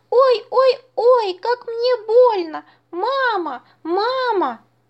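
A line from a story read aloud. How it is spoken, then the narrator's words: Loud squealing. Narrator (Russian): громко запищал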